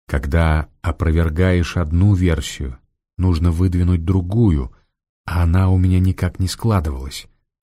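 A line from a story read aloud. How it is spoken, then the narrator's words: Plain. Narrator (Russian): ответил Раст Петрович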